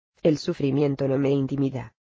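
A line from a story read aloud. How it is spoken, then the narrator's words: Humble sigh. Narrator (Spanish): suspiró la víctima con humildad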